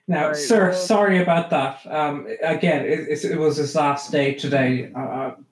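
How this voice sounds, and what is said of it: Speaks with a noticeable accent. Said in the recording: “Stop making fun of my accent”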